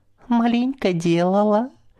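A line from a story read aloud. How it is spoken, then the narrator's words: Drunken laughter, yawning. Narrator (Russian): Хмельно смеялась мать и, сладко зевая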